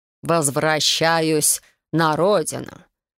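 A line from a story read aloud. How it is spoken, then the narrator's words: Unfriendly drawl. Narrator (Russian): Недружелюбно протянул Бэкстон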